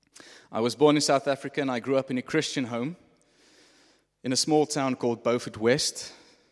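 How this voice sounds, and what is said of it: South African accent. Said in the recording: “what this accent is, it's South African”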